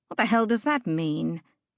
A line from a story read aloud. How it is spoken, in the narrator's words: Catriona grumbled